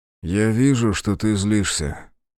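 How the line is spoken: Plain. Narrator (Russian): наконец-то сказал Ергерт

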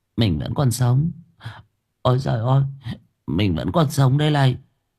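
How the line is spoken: Stammering mutter. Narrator (Vietnamese): Nó ú ớ, lẩm bẩm

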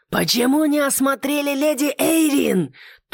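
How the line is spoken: Furious roar with cursing. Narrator (Russian): взбешенно взревел Леннокс с громкими ругательствами

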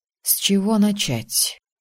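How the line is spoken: Breathed out. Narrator (Russian): выдохнул Асгар

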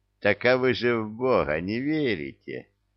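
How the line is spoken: Laughing. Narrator (Russian): засмеялся Илья

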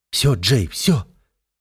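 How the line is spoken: Muttering while struggling. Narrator (Russian): бормочет, вырываясь

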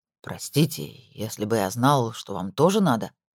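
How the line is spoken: Mumbled. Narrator (Russian): промямлил

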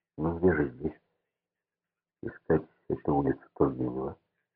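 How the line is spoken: Muttering. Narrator (Russian): пробормотал Меркулов

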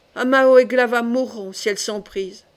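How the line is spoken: Angry growl. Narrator (French): gronda-t-elle

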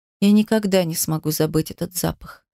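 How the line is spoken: Quiet. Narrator (Russian): сказала тихо

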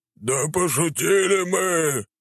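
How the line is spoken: Howling. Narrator (Russian): взвыли рогатые

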